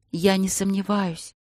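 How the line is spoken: Whisper into ear. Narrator (Russian): прошептала она, склоняясь к его уху

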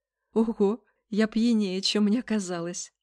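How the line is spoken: Laughing. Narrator (Russian): Изабель рассмеялась

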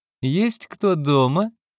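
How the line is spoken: Laughing. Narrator (Russian): рассмеялась Синди

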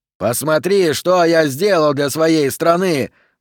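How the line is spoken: Shouting, voice breaking. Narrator (Russian): закричал он срывающимся голосом

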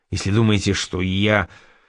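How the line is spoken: Hiss. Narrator (Russian): прошипел Холмс

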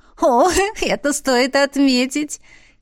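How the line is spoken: Giggling. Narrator (Russian): хихикнула Беатриса

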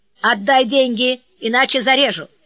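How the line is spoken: Shouting coachman. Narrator (Russian): Извозчик закричал

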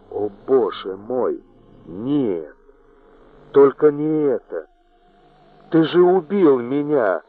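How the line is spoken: Moaning. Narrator (Russian): простонала Джилл

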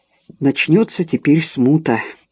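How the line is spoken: Muttered under his breath. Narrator (Russian): пробормотал он себе под нос

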